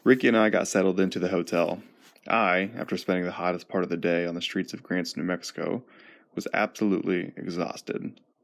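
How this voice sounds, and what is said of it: Rough, nearly lost voice. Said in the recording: “my voice is a little rough right now. I think I'm on the verge of losing it”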